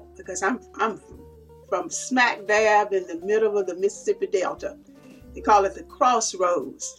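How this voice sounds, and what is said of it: Southern American drawl. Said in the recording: “my southern drawl”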